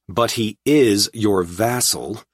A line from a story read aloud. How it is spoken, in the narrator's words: I said irritably